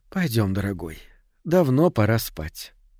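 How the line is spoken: Sleepy, smiling speech. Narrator (Russian): Она сонно улыбнулась и сказала

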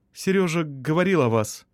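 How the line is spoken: Forced out. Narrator (Russian): выдавила Елена

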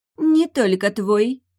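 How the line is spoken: Mocking, familiar voice. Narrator (Russian): насмешливо произнес голос, показавшийся мне знакомым

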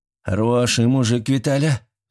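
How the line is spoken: Sighing. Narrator (Russian): вздохнул Митрич

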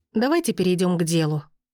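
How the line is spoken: Irritated. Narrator (Russian): раздраженно произнесла я

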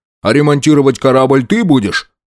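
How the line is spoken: Irritated question. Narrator (Russian): раздраженно спросил Винг

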